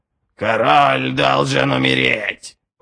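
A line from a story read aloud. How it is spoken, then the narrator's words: Creaky screech. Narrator (Russian): проскрипел орел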